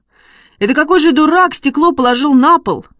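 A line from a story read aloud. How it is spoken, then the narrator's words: Shouted. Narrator (Russian): закричал Шишкин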